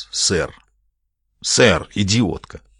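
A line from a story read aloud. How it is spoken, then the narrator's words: Muttered under breath. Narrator (Russian): пробурчал себе под нос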